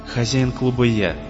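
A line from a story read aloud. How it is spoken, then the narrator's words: Soft interruption. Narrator (Russian): мягко перебил ее Сэм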